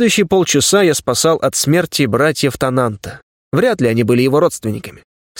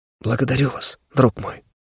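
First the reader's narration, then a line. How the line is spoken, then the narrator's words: Exhausted whisper. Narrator (Russian): Тананд обессиленно прошептал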